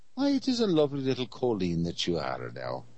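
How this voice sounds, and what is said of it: Deliberately bad put-on accent. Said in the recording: “One of my horrible accents”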